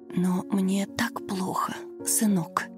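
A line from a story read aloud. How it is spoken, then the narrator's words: Elderly woman whispering in pain. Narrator (Russian): шептала пожилая женщина, корчась от боли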